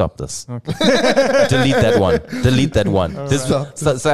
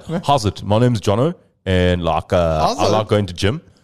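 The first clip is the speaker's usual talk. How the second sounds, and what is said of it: Put-on white South African accent. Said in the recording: “I want to hear the South African white ... South African accent. Is one of the hardest accents ... I think white people are like”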